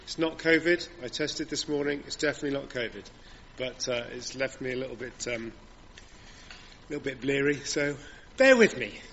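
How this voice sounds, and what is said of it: Slightly rough voice from a cold. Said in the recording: “I sound a little rough. ... The cold that's going around has caught up with me”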